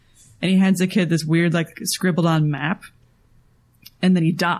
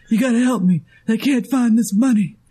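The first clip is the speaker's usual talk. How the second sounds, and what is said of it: Ray Liotta impression. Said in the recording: “this great Ray Liotta Shantix ad accent”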